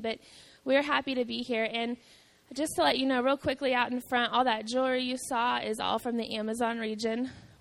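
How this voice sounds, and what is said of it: Rough, strained voice. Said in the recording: “My voice is a little rough this morning ... I have a little more voice than I did when I went to bed last night”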